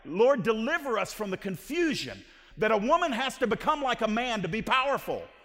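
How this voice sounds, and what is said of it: Yelling. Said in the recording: “I'm yelling”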